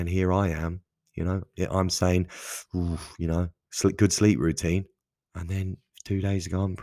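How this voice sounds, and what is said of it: Usual voice. Nothing is said of it.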